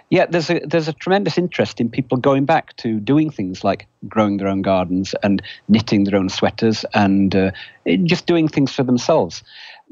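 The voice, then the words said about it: British accent. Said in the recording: “You can probably tell from my accent, I'm not originally American. I grew up in Britain.”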